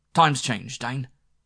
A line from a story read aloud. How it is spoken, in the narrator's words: he snapped